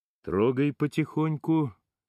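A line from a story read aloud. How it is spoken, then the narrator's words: Flat colorless voice. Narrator (Russian): изрекает своим бесцветным голосом Валентин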